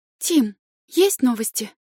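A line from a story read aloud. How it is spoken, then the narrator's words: Anxious question. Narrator (Russian): взволнованно спросила Ева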